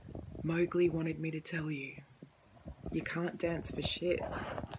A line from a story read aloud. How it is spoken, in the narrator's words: the girl morphed into a sleek panther and whispered